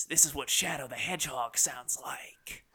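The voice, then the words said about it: Snake-like character voice. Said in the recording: “doing my snake voice.”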